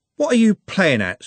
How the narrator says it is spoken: said Trev angrily

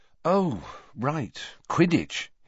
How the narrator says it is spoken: he said, running a hand wearily through his hair

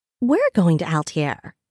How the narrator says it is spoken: Seraphina exclaimed

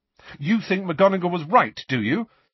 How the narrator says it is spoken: said Harry angrily to the picture of Cornelius Fudge

